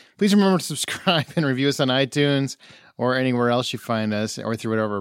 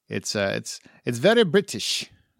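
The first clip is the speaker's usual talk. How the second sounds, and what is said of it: Poor put-on British accent. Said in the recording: “That was a horrible British accent, but it's what I've got.”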